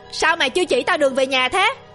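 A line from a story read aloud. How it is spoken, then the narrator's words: Terrified shriek. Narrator (Vietnamese): Hắn ta rú lên đầy sợ hãi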